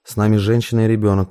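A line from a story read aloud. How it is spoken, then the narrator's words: Dry reminder. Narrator (Russian): сухо напомнил Парамонов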